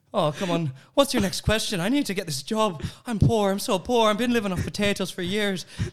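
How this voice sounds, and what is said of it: Put-on Irish accent. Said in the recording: “Irish. ... how to do an Irish accent”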